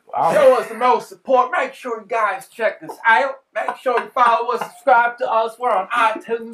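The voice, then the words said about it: Put-on country accent. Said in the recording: “Can you tell us in a country accent again? ... You gotta talk like that the whole time.”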